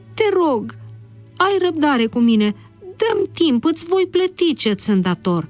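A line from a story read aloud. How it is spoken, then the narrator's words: Breathless pleading. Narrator (Romanian): Respirând cu greu, el a implorat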